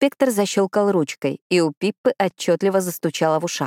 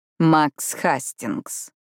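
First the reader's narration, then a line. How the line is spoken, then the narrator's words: Emphatic drawl. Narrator (Russian): протянул Хокинс с нажимом, произнося согласное в его имени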